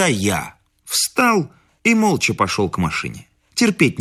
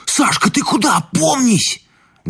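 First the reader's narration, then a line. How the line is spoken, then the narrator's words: Shouted from the back. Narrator (Russian): Из задних рядов крикнули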